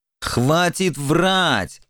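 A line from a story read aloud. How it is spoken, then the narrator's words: Irritated bark. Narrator (Russian): раздраженно рявкнул Формазон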